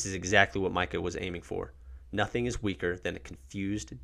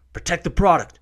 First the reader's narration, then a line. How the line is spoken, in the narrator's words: One of the leaders shouts